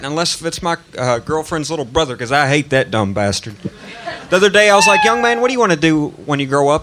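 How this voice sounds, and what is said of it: Tennessee accent. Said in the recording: “What's that accent? ... I'm from Tennessee.”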